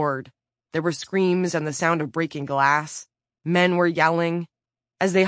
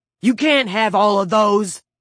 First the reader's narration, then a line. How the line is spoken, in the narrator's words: Motorcycle Boots shouted